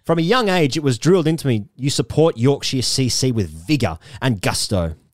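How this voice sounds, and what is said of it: Posh southern English accent. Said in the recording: “I've always lived and been privately educated in Oxford, as my accent suggests”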